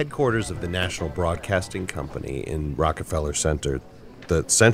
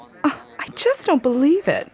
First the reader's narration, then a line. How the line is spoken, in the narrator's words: The girl cried out